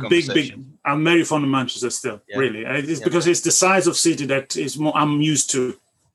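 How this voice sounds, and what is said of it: Italian accent. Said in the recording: “you're from Italy originally, Rome ... You can tell it from my accent.”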